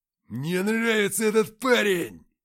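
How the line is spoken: Joyful howl. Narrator (Russian): Радостно взвыл Антоха

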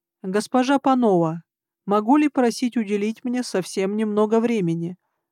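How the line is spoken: Even, level voice. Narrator (Russian): сказал он ровным голосом

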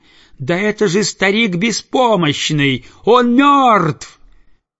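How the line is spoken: Sharp, piercing scream. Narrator (Russian): она закричала резко и пронзительно

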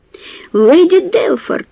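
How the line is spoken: Shocked reproachful exclamation. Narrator (Russian): с потрясенным укором воскликнул Андре

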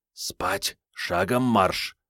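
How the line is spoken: Whispered command. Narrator (Russian): по-прежнему шепотом скомандовал ночной смотритель

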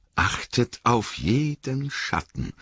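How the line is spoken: Quiet voice. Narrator (German): sagte mit leiser Stimme

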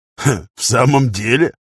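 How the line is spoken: Skeptical snort. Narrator (Russian): Кристоф скептически хмыкнул

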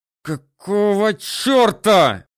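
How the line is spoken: Through gritted teeth, restrained fury. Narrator (Russian): сквозь зубы проговорил он, стискивая челюсти и уже страшась, что сорвется и будет орать

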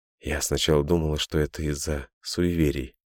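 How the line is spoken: Trusting mumble. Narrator (Russian): доверчиво забормотала Софья

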